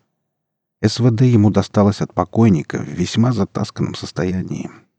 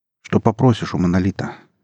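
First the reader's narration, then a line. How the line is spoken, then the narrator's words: Plain. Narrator (Russian): спросил Иван журналиста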